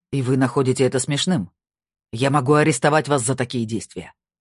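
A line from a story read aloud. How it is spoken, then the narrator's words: Barking. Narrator (Russian): рявкнул Гульбрандсен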